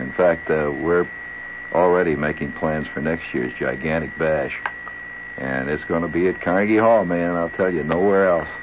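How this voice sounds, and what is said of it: Hoarse voice. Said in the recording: “You can see why I'm a little hoarse ... I'm not used to all that projecting.”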